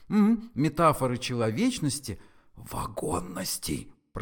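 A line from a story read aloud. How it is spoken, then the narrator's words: Hissed. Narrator (Russian): прошипел ему Форд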